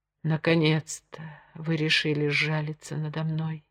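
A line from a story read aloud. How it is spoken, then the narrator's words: Whispered. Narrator (Russian): прошептала Джемма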